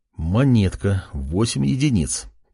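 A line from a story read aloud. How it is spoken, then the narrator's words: Muttering. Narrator (Russian): пробормотал он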